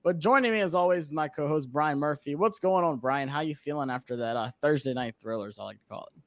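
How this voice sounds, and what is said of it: Hoarse, worn-out voice. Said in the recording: “my voice is still shot from Thursday night”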